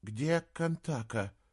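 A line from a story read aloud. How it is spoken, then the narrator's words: Weak worried question. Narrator (Russian): слабым голосом спросил Саймон, который неожиданно для себя понял, что волнуется за волчицу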